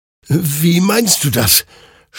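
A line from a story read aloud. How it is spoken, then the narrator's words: Confused stammering. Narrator (German): stammelte verwirrt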